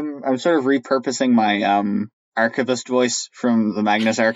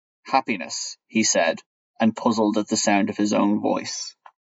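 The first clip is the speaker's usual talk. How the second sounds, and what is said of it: Deep character voice. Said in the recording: “you do a great death impression. ... I kind of have two deep voices”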